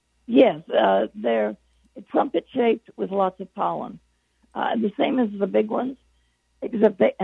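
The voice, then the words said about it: Voice giving out. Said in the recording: “I'm losing my voice.”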